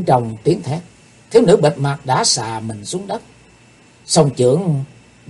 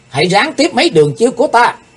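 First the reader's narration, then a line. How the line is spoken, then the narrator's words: Frustrated shrill cry. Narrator (Vietnamese): Liên tiếp mấy thế công bị phá hủy, thiếu nữ bịt mặt thét lên một tiếng lanh lảnh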